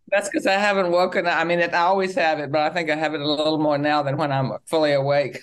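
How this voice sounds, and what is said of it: Trace of a Virginia accent. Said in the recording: “I can hear that accent. I can hear that Virginia, trace of a Virginia accent”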